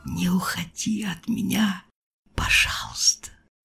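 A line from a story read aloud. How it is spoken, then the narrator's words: Whisper. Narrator (Russian): шепотом произнес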